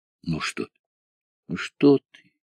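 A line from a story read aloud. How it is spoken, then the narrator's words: Quiet, soothing. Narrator (Russian): тихо сказал Кудрявцев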